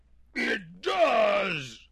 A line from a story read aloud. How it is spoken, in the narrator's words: moaned the bear